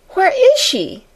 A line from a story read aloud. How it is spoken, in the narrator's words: almost shrieked Jessie